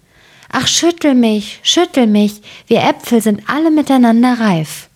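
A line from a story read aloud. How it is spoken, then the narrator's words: Calling out. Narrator (German): rief zu ihm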